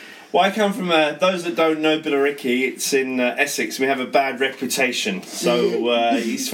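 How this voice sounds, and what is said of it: Usual voice. Nothing is said of it.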